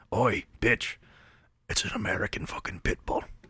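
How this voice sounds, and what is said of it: Weak put-on British accent. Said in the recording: “I'm off my accent game... That's what they sound like today.”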